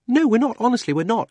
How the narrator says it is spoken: said Polly hastily

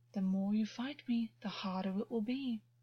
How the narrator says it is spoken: Augus purred

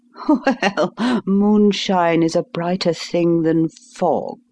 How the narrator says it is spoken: said Holmes, laughing

